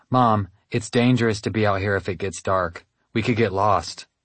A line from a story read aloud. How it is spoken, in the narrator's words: I said